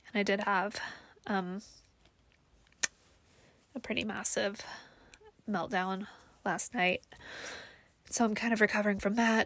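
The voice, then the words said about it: Tearful, emotional voice. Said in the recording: “I don't want to cry on my own podcast. ... I didn't expect to get emotional,”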